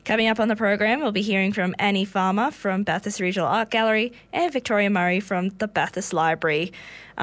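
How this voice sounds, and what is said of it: Hoarse, partly lost voice. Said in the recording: “You may already hear it in my voice, but I'm losing it a little bit”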